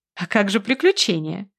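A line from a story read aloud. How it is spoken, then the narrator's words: Laughing. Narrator (Russian): смеялась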